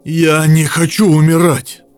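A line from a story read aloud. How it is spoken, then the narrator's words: Exhausted, self-pitying exhale. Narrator (Russian): Обессиленно выдохнул, преисполненный безмерной жалости к себе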